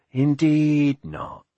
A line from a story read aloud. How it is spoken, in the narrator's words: said Brother Paul slowly